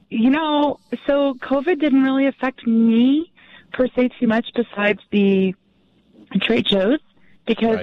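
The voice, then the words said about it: Hoarse, strained voice. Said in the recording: “I'm losing my voice because I've been talking so much the last couple of days.”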